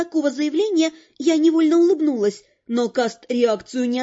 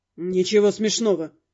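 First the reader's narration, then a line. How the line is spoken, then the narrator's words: Grumbled. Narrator (Russian): буркнул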